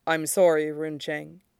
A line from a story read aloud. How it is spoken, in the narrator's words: he says softly